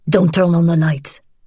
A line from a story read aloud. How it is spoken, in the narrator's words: her father said harshly